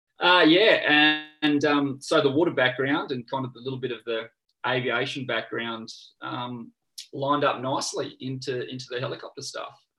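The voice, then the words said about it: Noticeable accent. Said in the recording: “The accent threw me off.”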